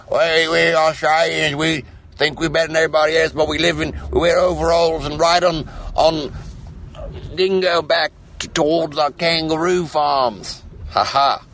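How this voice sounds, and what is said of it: Bad imitation of an Australian accent. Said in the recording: “a horrible, horrible impression of your accent”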